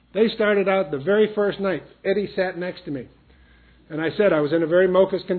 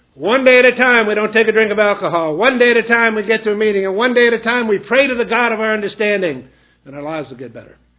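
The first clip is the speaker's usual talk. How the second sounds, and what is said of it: Booming, loud quoted voice. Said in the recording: “in a booming voice”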